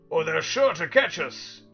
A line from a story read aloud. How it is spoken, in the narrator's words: barked Tok